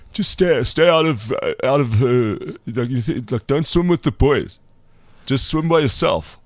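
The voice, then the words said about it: Imitation of Nick Mallett's accent. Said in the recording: “I'm trying to do a Nick Mallet accent.”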